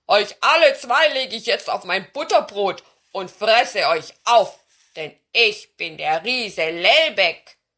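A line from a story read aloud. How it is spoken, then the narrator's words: Roaring. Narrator (German): brüllte an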